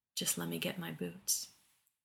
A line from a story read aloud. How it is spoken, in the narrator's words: murmured